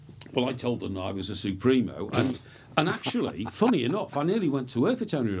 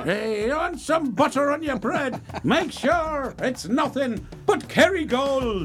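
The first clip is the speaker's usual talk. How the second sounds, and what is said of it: Put-on Irish accent. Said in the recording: “Talking with an Irish accent.”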